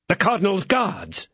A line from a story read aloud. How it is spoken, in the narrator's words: exclaimed Porthos and Aramis at the same moment